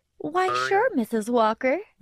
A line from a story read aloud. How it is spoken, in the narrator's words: Randy said in a fake, innocent voice